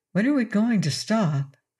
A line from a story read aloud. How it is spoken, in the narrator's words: asked Estelle uneasily